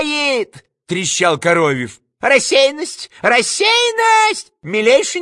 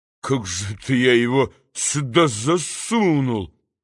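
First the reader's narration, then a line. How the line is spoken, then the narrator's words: Mumbling. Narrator (Russian): Никанор Иванович бормоча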